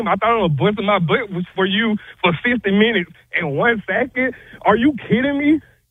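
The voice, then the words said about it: Out of breath, ranting. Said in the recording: “I can tell ... out of breath. ... That's out of breath.”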